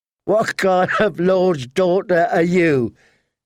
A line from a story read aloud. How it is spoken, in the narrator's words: he said, laughing